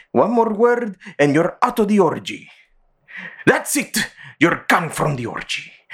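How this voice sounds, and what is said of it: Put-on Greek accent. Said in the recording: “why are you speaking with that accent? ... You're not Greek.”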